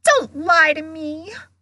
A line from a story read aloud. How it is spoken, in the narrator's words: Myrtle gasped, tears now flooding down her face